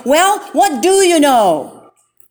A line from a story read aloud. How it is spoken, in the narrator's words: Finally, the man lost his temper completely and shouted